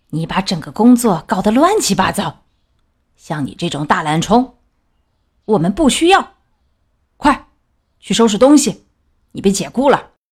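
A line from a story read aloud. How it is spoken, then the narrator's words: Angry shout. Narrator (Chinese): 管理员气冲冲的朝大熊吼道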